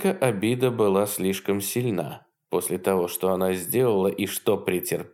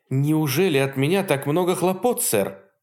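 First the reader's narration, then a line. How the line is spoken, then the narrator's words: Bitter exclamation. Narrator (Russian): воскликнула она с горечью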